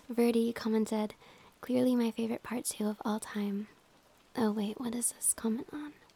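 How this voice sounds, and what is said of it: Hoarse, failing voice. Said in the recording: “I'm losing my voice... What is wrong with my voice?”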